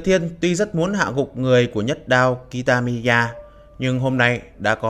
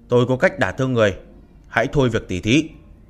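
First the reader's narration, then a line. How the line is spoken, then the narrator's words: Cold. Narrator (Vietnamese): Mặt Diệp Thiên lạnh lùng nói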